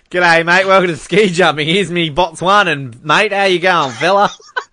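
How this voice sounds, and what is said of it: Put-on Australian accent. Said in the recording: “Let's get our Botswanan commentator with the Australian.”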